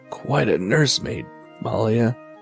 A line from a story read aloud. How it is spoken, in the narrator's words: he croaked, barely above a whisper